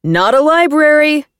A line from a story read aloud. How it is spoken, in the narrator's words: shouts back